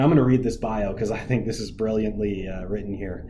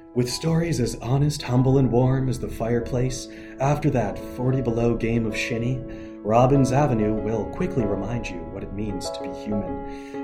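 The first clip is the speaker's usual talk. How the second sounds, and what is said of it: Warm, polished bio-reading voice. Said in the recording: “I'm going to do this in my best nice bio voice.”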